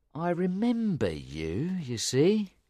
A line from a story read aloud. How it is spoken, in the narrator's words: Jerry said slowly